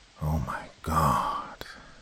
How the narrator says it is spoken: Dad whispered

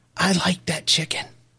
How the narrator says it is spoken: she kind of whispered

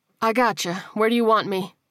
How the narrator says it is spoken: she replied

